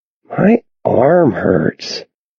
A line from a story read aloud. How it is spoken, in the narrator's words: Connor says lazily